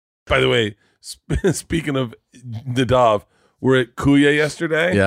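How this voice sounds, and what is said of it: Usual voice. Nothing is said of it.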